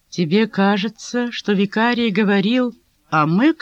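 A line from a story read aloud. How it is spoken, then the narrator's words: Plain. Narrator (Russian): спросила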